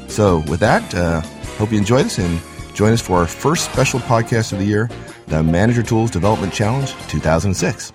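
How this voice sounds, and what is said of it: Raspy, sick-sounding voice. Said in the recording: “I'm afraid things didn't sound that great ... the audio challenges that my raspy voice may present”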